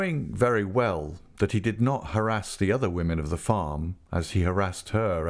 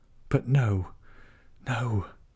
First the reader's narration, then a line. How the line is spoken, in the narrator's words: she said breathlessly